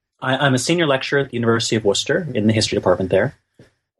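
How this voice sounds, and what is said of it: Non-British accent. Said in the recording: “I'm in the UK now, uh, although my accent suggests that I'm not originally from here”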